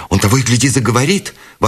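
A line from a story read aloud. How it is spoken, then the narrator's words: Exclaimed. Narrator (Russian): воскликнула Бет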